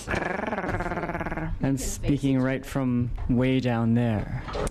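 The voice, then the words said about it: Low, sultry sexy voice. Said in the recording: “is that your sexy voice? ... It's my sexy voice.”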